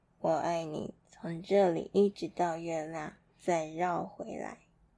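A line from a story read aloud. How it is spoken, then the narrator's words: Soft, smiling. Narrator (Chinese): 大兔子 小声的微笑着说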